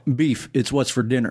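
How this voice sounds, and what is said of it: Imitates another person's voice. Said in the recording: “doing a Sam Elliott impersonation”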